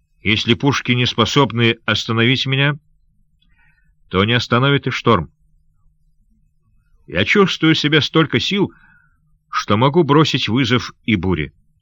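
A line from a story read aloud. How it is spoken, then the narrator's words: Plain. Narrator (Russian): сказал он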